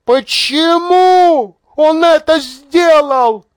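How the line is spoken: Shouting. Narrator (Russian): закричала она

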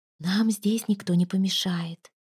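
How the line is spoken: Whisper. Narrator (Russian): прошептала она

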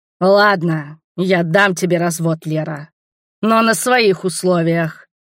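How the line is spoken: Growled. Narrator (Russian): прорычал

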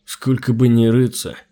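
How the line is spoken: Grumbled. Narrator (Russian): проворчал Глеб

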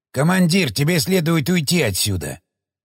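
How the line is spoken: Worried grumble. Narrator (Russian): озабоченно проворчал Шестаков

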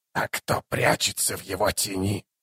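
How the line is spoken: Hoarse rasp. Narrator (Russian): прохрипел заклинатель по имени Бек-О-Хан

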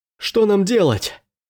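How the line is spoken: Soldier shouting. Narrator (Russian): закричал солдат

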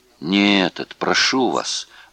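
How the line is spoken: Pleading. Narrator (Russian): взмолился Нойбауэр

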